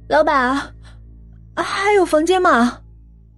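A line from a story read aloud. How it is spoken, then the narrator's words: Shivering, trembling question. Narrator (Chinese): 葛红娇浑身湿漉漉的，声音哆哆嗦嗦的问了一句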